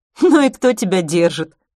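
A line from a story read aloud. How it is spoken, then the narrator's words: Laughing. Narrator (Russian): рассмеялась Майя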